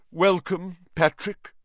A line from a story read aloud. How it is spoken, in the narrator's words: said Nick stiffly